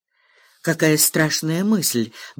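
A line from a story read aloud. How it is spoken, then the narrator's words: Frightened whisper. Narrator (Russian): бледнее прошептала Сесси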